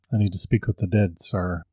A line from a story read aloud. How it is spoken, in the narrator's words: said very softly